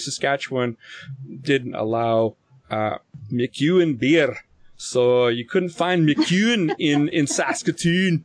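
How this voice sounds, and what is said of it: Poor put-on Scottish accent. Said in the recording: “that's a shitty Scottish accent”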